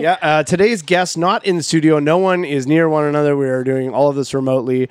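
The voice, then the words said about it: Hoarse, fading voice. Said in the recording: “I feel like I'm losing my voice”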